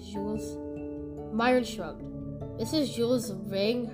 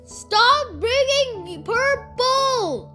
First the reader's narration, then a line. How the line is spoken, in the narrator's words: they shouted again